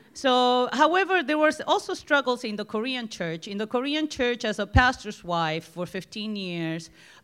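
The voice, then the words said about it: Strong Argentinian Spanish accent. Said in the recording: “my Argentinian accent, which is very predominant”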